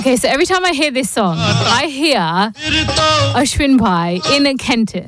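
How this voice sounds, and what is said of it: English accent. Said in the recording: “excuse my English accent.”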